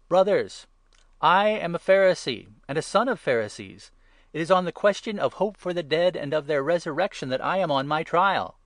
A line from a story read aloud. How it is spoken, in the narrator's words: Paul called out in the council